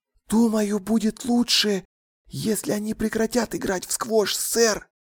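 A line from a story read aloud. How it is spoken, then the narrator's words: Whispered. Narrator (Russian): прошептал он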